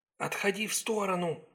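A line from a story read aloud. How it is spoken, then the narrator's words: Whisper. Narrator (Russian): шепнула Сакс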